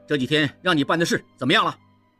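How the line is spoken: Angry. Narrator (Chinese): 应季怒冲冲地说

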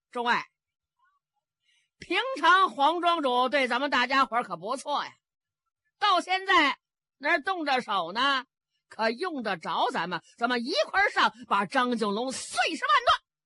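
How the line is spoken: Shouting. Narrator (Chinese): 喊的这个人是北霸天韩云虎

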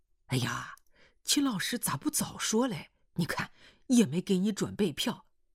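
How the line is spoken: Hurried speech. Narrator (Chinese): 单团长急忙说

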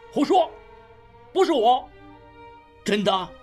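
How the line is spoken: Alarmed shout. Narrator (Chinese): 应镇变色大叫

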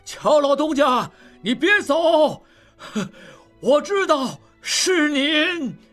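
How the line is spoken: Old ferryman calling out. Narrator (Chinese): 摆渡老人仍在喊

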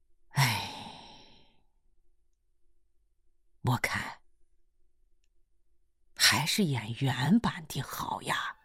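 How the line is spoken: Long sigh. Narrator (Chinese): 秦巴娃长叹了一声

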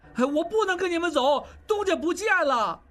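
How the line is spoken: Struggling cry. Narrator (Chinese): 小栓挣扎着叫

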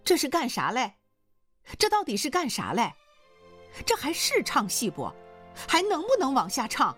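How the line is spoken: Shouting. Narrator (Chinese): 只听易秦娥喊叫起来

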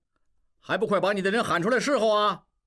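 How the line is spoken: Shouting. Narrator (Chinese): 又喊老鸨子

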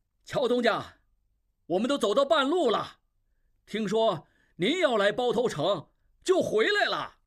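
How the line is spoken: Loud shopkeeper. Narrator (Chinese): 一掌柜模样的人上前大声说

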